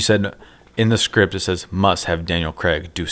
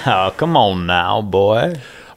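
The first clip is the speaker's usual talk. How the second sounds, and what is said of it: Exaggerated Southern cartoon drawl. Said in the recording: “Southern accent ... All right, Foghorn Leghorn”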